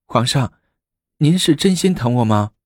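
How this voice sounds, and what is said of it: Coquettish, sweet female voice. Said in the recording (Chinese): “她娇声问道”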